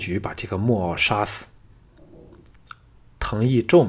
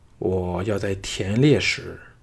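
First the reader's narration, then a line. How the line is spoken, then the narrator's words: Low deep voice. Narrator (Chinese): 项少龙沉声说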